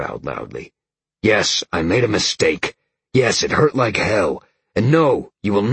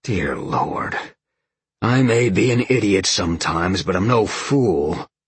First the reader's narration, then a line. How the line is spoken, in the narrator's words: Sean sighed